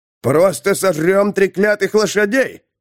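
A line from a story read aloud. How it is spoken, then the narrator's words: Shout. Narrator (Russian): крикнул бедняга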